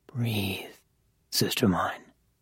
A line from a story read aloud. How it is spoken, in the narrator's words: the latter murmured